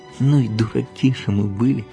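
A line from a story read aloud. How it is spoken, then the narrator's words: Whispering to each other. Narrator (Russian): Павлик со Славкой шепнули друг другу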